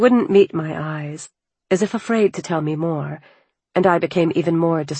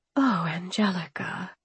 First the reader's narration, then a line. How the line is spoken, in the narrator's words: I breathed